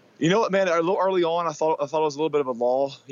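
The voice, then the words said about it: Hoarse, worn-out voice. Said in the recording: “my voice is gone”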